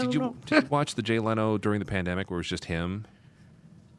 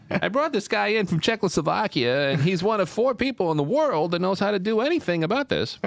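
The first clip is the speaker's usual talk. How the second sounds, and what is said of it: Jay Leno impression. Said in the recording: “That was an amazing Jay Leno impression. ... He does a pretty good impression.”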